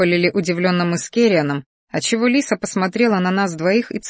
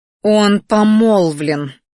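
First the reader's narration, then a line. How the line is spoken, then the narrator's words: Growl. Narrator (Russian): рыкнула Лиса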